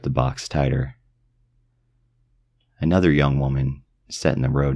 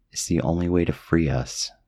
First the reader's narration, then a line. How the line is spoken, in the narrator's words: her voice pleaded quietly in my head